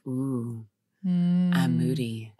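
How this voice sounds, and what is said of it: Sultry, sexy voice. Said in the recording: “I love that voice. It's like a sexy voice.”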